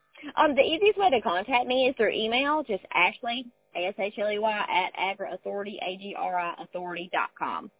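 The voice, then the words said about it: Southern American accent. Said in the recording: “That southern accent is just a ray of sunshine”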